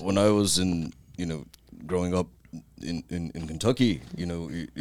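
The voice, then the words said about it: Put-on English accent, drunken delivery. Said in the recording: “where's the accent come from? ... Why do you speak like some sort of fucking English person? ... Kentucky, France? ... What's the European ... He's hammered.”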